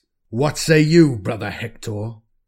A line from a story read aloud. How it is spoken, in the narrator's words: Constantius growls